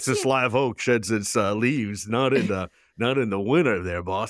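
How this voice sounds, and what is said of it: Imitates another person's voice. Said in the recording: “my JFK impression”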